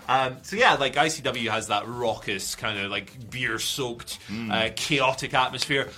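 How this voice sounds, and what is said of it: Scottish accent. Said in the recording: “Why am I doing an accent? I am Scottish.”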